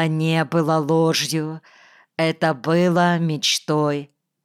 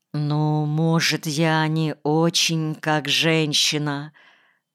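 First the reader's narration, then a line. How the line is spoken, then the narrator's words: Embarrassed, muffled. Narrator (Russian): Голос звучал смущенно, глухо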